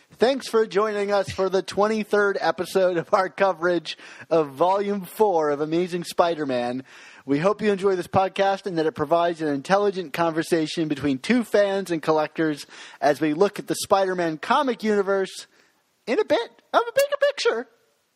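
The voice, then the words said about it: Smooth announcer-style host voice. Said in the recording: “I'm putting on my flow voice.”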